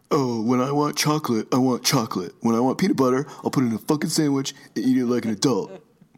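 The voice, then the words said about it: Imitates another person's voice. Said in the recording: “This is you. This is you. ... your impression”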